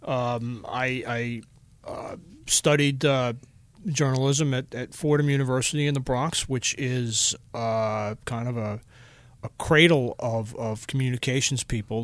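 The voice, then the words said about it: Long Island accent. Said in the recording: “I grew up on Long Island, as if the accent wasn't a dead giveaway.”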